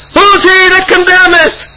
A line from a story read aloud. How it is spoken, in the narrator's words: yells